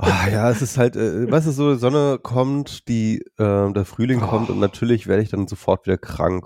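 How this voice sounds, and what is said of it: Slightly congested, stuffy-nosed voice. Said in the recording (German): “Du klingst so ein bisschen verschnupft.”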